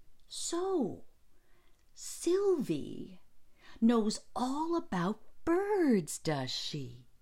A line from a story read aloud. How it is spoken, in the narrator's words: He exclaimed